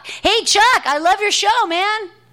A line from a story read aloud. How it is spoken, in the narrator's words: yell out